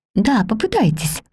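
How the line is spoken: Gentle, affectionate voice. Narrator (Russian): ласково сказала Мэри

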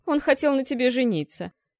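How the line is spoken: Mocking. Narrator (Russian): насмешливо пояснил Харган

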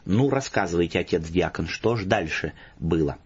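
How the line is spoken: Amused priest speaking. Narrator (Russian): Насмеявшись в волю, батюшка сказал

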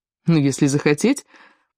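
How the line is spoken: Laughing. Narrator (Russian): засмеялся Теори

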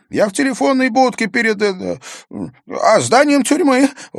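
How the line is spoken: Nervous laugh. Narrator (Russian): Он нервно засмеялся

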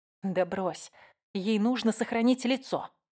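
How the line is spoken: Whisper. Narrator (Russian): прошептала я

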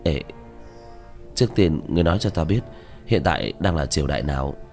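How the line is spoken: Reluctant, trembling lips. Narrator (Vietnamese): Diệp Thiếu Dương khóe miệng run rẩy, miễn cưỡng mà nói

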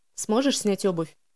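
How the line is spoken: Plain. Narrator (Russian): спросил Элиас

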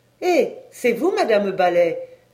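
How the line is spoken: Exclamation. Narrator (French): s'écria-t-elle

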